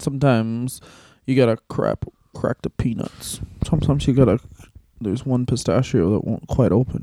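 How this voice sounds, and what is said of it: Imitates another person's voice. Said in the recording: “Is that your Violent J impression? Because it's very good.”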